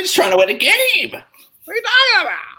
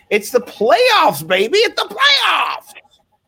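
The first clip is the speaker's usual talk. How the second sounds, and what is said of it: Imitates another person's voice. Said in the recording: “my impersonation of Alex Awesemo Baker doing the playoffs impersonation”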